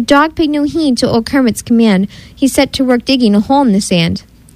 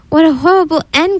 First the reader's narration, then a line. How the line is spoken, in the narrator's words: Kermit said with a groan